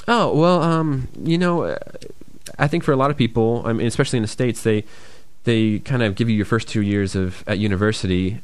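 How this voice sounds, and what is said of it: Soft Detroit American accent. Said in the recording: “I am from the States, from a state called Michigan, notably Detroit, the city of Detroit. That's where my accent's from. Apparently, some people say I have a soft accent ... Not very hard from other states.”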